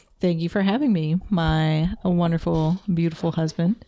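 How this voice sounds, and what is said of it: Calm NPR radio host voice. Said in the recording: “With her NPR voice.”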